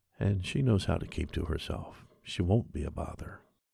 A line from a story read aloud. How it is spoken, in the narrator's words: The postman said softly